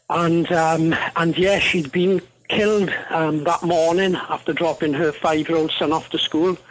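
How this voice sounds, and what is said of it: Welsh accent, not a Kiwi one. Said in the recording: “my accent isn't a Kiwi accent. I'm originally from Wales in the UK.”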